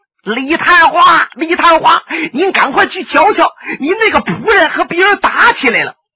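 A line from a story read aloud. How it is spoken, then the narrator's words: Shouting upstairs. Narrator (Chinese): 向楼上喊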